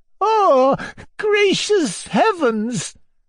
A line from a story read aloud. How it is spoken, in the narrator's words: cried, trembling like a leaflet with horror